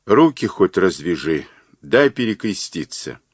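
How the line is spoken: Weak, feeble whisper. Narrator (Russian): Кузьмич, вяло шевеля бледными губами, прошептал

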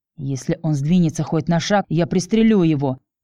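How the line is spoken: Hiss. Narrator (Russian): прошипел Тим

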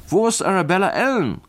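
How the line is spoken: Many voices calling out. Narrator (German): rief ein Dutzend Stimmen

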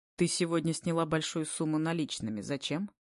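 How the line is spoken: Calm question. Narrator (Russian): Спокойно интересуюсь я

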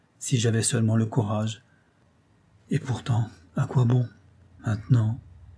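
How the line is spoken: Woman's murmur. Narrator (French): murmura-t-elle

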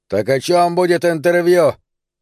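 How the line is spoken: Barked. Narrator (Russian): рявкнул гангстер

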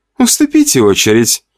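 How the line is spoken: Giggling. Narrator (Russian): Хихикала Настя

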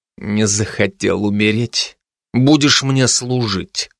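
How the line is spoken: Said through gritted teeth. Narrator (Russian): процедил Кузар

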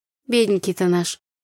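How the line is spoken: Mock sigh. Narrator (Russian): притворно вздохнула я

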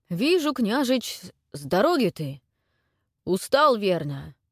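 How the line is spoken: Strained, forced words. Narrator (Russian): Прокша с трудом выдавил слова

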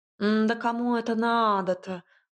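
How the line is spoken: Drawling. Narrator (Russian): протянул кот

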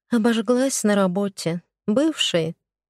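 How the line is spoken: Heavy sigh. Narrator (Russian): Тяжко вздохнула

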